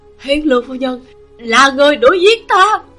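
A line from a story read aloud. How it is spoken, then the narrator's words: Sudden terrified shout. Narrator (Vietnamese): Người tôi tớ của Lưu Phẩm Nhượng đột nhiên hoảng sợ hét lớn một tiếng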